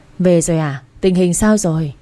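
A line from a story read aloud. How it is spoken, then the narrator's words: Old woman sighing. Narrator (Vietnamese): Bà thở dài, gọi lại hỏi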